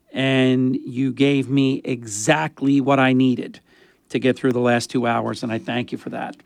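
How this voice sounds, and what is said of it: Strained, sore-throated voice. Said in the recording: “My throat hurts. My voice is not right.”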